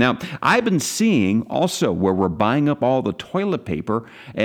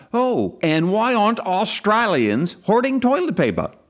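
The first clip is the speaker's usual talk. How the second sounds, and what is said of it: Bad put-on Australian accent. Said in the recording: “That was a really bad accent. ... You were expecting something better?”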